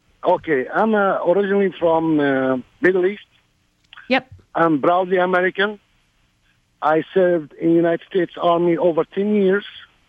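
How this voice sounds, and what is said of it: Non-native accented English. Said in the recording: “please forgive me for my accent ... i'm a redneck with accent”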